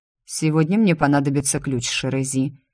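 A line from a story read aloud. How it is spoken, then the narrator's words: Cold. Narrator (Russian): холодно сказал он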